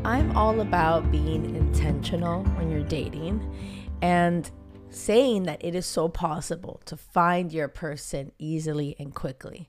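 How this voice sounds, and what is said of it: Weak, recovering voice. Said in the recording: “my voice is like just getting back. I lost my voice. I'm getting over a cold”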